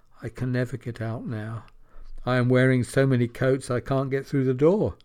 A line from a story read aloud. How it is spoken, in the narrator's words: she sighed and said